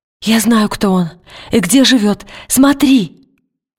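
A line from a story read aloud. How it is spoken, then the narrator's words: Exclaiming. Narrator (Russian): воскликнула она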